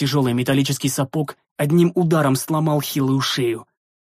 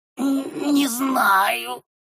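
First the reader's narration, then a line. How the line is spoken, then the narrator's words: Creature's wheeze. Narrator (Russian): просипел шурд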